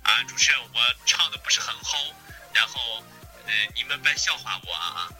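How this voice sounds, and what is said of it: Strong Qingdao accent. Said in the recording (Chinese): “他说话青岛味儿好足... 虽然他说话青岛味儿很足，但是他唱歌的时候是没有青岛口音的”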